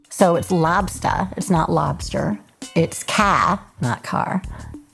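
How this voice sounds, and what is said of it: New England accent. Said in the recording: “That's how you speak with a New England accent.”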